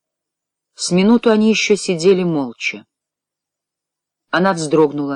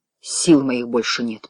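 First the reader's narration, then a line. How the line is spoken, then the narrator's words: Muttered. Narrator (Russian): пробормотал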